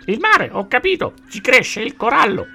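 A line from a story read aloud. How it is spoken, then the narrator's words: Parrot's shrill screech. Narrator (Italian): strillò come un'aquila il pappagallo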